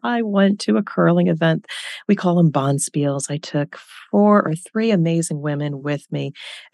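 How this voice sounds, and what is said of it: Scratchy voice. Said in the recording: “my voice is a little scratchy today”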